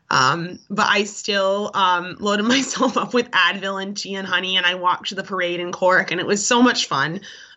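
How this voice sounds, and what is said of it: Sick, unwell-sounding voice. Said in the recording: “I'm not sure if the listeners can hear in my voice, but I was sick as a dog”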